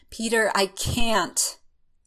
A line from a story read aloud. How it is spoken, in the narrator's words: fighting its way to his mouth, he manages to gasp out